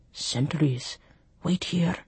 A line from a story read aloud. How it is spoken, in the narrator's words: Mouth to ear, he breathed